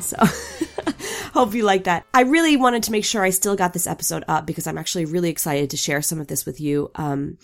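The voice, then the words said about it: Sick, rough-throated voice. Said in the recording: “I hope that my voice is, the sexy sick instead of just the annoying one ... regardless of my, my throat and how my voice sounds.”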